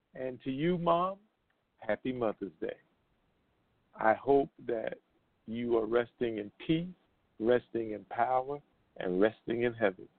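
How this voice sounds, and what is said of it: Choked-up, emotional voice. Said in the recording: “little choked up”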